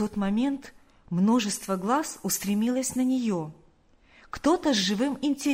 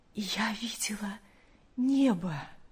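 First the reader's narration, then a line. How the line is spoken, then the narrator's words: Weak but joyful. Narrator (Russian): слабым голосом, но с огромной радостью сказала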